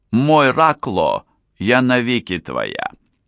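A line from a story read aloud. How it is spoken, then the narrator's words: Tender, affectionate. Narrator (Russian): Катрина ласково взглянула на Королуса и сказала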